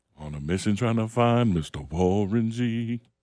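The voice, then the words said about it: Sexy, raspy singing voice. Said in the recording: “Get that sexy voice. Couple of Paul Malls before you get in here, unfiltered.”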